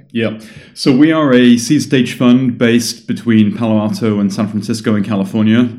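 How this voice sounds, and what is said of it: British English accent. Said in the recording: “As you can tell from my accent, I am a Brit.”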